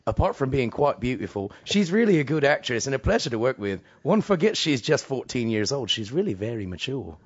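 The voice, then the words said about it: British-accented imitation of another person's voice. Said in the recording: “Maybe it's a British. ... I only did the accent ... I really thought David Bowie was in here with us when you did that.”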